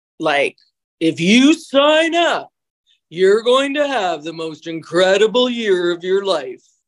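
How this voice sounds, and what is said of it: Imitates another person's voice. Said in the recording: “that was my Tony Robbins impression.”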